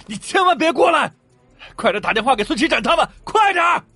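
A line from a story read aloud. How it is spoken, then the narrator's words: Roaring shout. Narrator (Chinese): 王莹吼了一声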